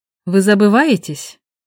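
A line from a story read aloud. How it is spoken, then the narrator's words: Snorting. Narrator (Russian): Он хмыкнул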